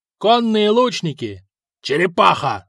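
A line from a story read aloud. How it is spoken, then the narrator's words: Yelling. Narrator (Russian): заорал Хакон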